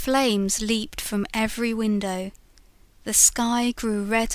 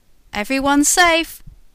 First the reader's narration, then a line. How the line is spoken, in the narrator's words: cried a fireman